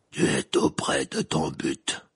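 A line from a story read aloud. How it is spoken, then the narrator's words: Deep, hoarse creature voice. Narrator (French): dit la créature d'une voix grave et rauque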